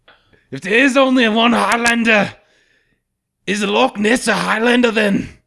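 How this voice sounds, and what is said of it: Put-on Scottish accent. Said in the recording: “you got to ask it in a Scottish accent, though. ... not a bad Scottish accent.”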